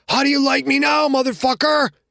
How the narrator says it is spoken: Junior screaming

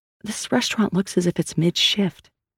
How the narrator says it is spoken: Sal whispered to Asante

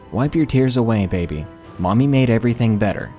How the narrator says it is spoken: she said in a calm voice

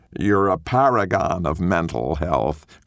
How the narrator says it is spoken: Chris drawls

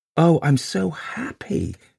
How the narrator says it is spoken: she whispered, entranced

